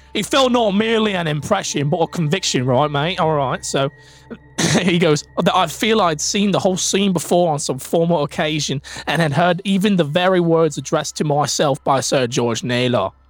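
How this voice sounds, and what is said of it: Put-on street English accent. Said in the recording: “this guy needs like a really like just street English accent. Talks like this, right?”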